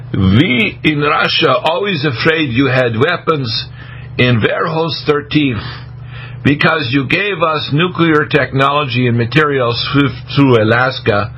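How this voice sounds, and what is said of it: Broken Belarusian-Russian accent. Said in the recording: “in a kind of a broken Belarusian accent, which is a Russian”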